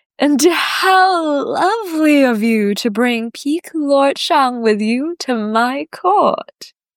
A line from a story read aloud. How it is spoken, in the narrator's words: Lady Baiyan purrs